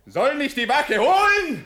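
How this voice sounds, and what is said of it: Shouting. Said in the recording (German): “Schrei nicht.”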